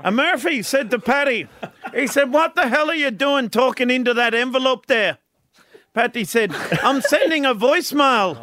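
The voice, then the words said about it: Put-on Irish accent, slightly Scottish. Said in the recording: “sometimes he puts an accent on. He's one of his best Irish ones. ... I think a little bit of a Scottish accent came in there.”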